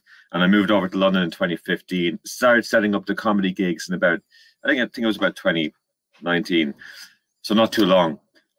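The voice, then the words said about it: Irish accent. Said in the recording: “now I'm from Ireland, as you can probably tell by my accent”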